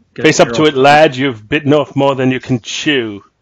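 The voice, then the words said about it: Put-on English accent. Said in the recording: “that's a good English accent”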